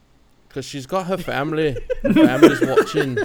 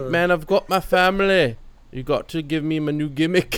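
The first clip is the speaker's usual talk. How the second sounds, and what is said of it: Put-on Scottish accent. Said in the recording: “You have to do your Scottish accent.”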